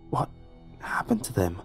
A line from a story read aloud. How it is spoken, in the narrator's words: I whispered back